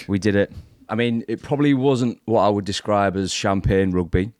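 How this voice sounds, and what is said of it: Rough, hungover-sounding voice. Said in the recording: “I'm still feeling a little bit dusty now, as you can probably hear it in my voice”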